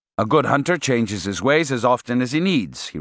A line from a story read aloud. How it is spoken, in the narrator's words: he replied